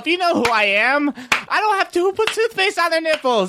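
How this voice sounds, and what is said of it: Yelling imitation of another person's voice. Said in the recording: “my impression of you ... I don't have the voice down”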